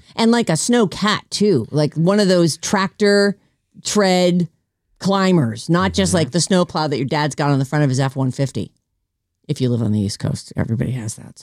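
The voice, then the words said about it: Lingering East Coast accent. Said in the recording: “Is that East Coast accent still lingering”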